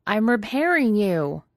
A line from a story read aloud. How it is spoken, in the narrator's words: Pidge yelled